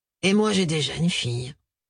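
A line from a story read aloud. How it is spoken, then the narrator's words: Gloomy sigh. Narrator (French): lâcha-t-il avec un soupir morose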